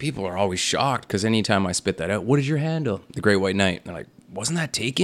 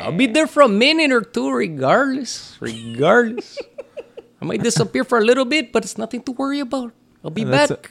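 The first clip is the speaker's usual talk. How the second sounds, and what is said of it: Put-on Tijuana Mexican accent. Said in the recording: “That's a little bit of a Tijuana accent there”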